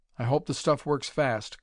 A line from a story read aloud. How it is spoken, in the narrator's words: groaned the doctor